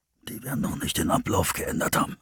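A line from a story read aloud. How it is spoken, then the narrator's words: Impatient mutter. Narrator (German): murmelte Russ ungeduldig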